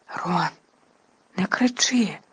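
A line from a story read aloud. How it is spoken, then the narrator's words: Anxious whisper. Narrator (Ukrainian): тривожно зашепотіла Герміона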